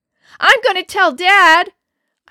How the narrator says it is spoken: let out a final yell

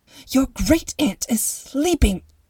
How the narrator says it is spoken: She hissed

